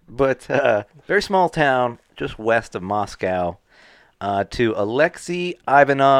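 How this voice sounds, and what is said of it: Usual voice. Nothing is said of it.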